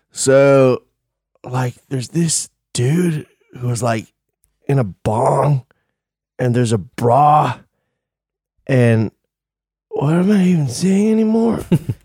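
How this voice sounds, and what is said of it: Stoned Californian surfer-style voice. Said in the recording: “my impression of a stoned Californian”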